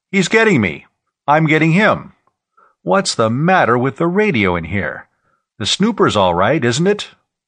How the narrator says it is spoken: his father cried

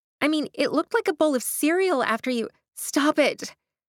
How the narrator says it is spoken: Astrid gasped

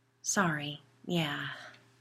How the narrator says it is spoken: sighed

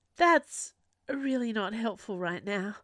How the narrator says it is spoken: sighed

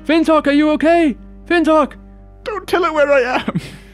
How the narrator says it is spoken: She yells out through the storm

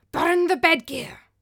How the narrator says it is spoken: rasped Thorgunna again

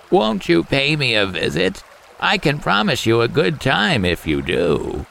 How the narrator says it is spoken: the frog croaked

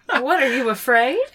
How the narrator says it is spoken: He laughs half-heartedly

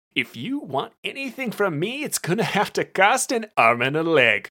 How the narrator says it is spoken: Brett chuckled

